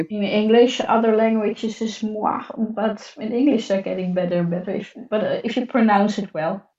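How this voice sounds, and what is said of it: Heavy Dutch-sounding accent in English. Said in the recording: “Google still consistently thinks I'm talking Dutch, even if I'm speaking English ... my accent is too heavy from Google to understand that I'm speaking in English”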